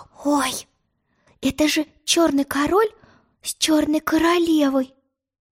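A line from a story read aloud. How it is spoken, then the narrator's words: Whisper. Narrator (Russian): прошептала она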